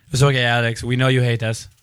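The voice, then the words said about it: Put-on Japanese accent. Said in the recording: “Is that a Japanese accent?”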